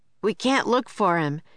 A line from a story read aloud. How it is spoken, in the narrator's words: shouted Jack